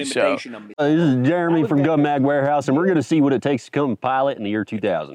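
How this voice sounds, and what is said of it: Imitated thick country accent. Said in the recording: “I've never actually heard somebody do an imitation of me. ... my country accent's a lot thicker than I thought it was.”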